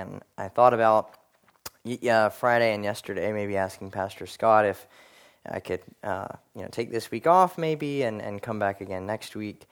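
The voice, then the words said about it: Slightly scratchy voice. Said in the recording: “my voice gets a little scratchy today ... coughing and some sore throat”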